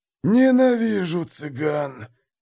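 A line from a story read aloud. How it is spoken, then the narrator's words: Hissed with hatred. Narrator (Russian): прошипел один из наших по имени Йохан Шрёдер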